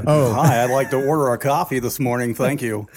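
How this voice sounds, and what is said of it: Exaggerated radio announcer voice. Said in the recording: “my podcast voice ... talking funny ... talking like radio guy ... Old radio guys have that bad habit”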